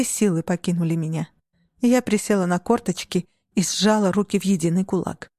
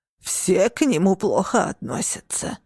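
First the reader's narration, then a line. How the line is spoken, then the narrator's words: Hoarse old woman. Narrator (Russian): прохрипела бабушка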